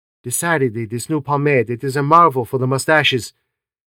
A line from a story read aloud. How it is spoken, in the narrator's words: merely murmured